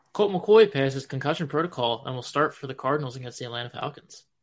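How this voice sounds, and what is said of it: Philadelphia accent on certain words. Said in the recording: “you got the Philly in there. It cracks me up when your Philly accent sneaks in there.”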